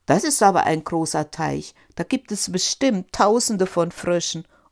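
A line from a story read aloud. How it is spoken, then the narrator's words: Cheerful call. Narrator (German): rief fröhlich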